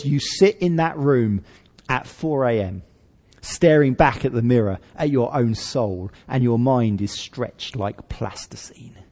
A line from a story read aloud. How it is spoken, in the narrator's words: says Dr